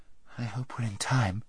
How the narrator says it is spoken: murmured Fwyn

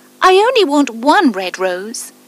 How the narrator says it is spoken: cried the nightingale

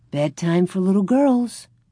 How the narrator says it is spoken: Ma said cheerfully

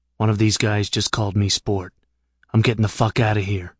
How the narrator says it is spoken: said in a whisper

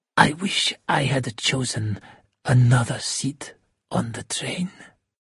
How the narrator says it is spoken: In a quiet voice said

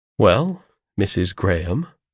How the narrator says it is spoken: said I, calmly and coldly, for though I saw she was miserable, and pitied her, I felt glad to have it in my power to torment her

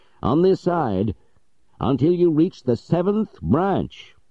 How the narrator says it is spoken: shouted Legrand

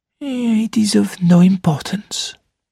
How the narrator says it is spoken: murmured Poirot

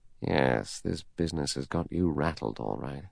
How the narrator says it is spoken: He said softly to himself

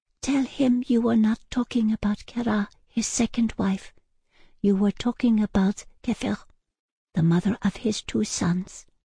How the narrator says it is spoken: Slowly, forlornly, the young woman shook her head and whispered in my ear

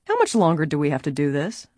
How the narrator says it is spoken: another grumbled

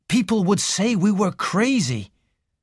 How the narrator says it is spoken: said Raymond bitterly

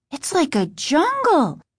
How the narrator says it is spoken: Margaret exclaimed

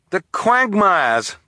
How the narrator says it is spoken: Klaus cried

